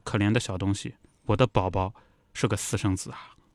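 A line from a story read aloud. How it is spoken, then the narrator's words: Murmuring. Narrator (Chinese): 埃瑟尔喃喃地说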